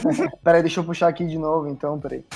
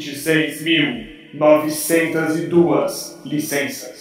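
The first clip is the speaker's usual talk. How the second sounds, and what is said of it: Announcer-style narrator voice. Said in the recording (Portuguese): “É pra fazer com a voz de locutor?”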